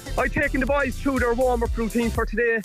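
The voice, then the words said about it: Out of breath. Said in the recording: “I'm out of breath here”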